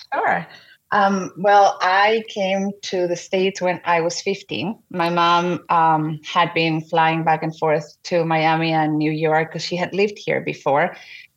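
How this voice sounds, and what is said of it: Strong foreign accent. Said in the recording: “you have a strong accent. You're not originally from this country.”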